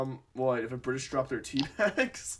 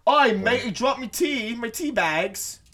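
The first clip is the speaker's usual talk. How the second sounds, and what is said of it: Stereotypical British accent. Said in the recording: “fucking stereotypical British accent”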